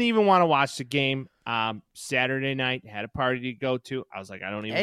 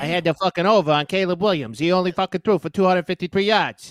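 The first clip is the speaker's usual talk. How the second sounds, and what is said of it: Imitates a TV mobster character's voice. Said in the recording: “dressed up like Tony Soprano ... The impression is good. That's a good impression from you there ... You watch enough Sopranos. It just kind of comes naturally ... I just pick up easy on the impressions.”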